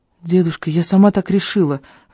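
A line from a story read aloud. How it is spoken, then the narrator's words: Timid interjection. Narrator (Russian): робко вмешала Шелли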